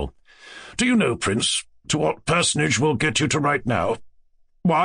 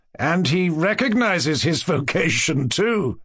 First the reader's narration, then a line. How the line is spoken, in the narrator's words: he added, with a sarcastic laugh